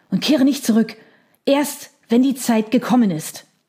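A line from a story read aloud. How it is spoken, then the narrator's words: Panting. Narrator (German): keuchte er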